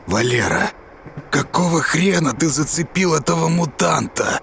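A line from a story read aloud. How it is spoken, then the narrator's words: Angry breathless wheeze. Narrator (Russian): Отдышавшись, злобно прохрипел дядя Жора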